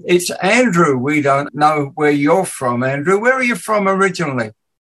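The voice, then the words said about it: English accent. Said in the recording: “my awful English accent”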